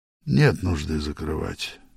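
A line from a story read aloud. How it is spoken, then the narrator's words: Tired. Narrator (Russian): сказал он устало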